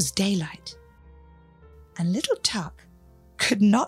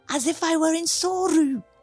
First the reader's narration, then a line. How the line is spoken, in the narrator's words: cried little Tuck as he awoke